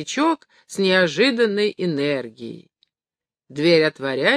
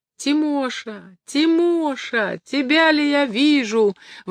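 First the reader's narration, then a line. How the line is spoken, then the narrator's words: Old man's joyful sobbing exclamation. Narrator (Russian): восклицает старичок, и радостное рыдание мешает ему продолжать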